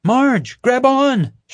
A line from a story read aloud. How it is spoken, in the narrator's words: she yelled